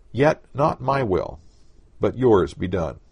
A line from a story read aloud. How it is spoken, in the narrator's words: says just as firmly